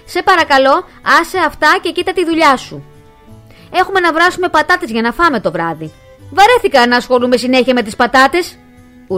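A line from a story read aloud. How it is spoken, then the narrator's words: Howled by son. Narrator (Greek): ούρλιαξε ο γιος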